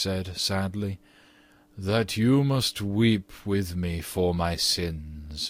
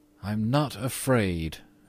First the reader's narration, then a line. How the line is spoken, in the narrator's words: said firmly